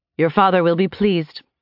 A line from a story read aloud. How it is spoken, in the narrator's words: she said